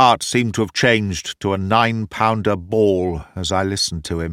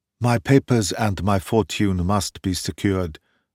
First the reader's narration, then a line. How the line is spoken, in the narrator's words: whispered the Emperor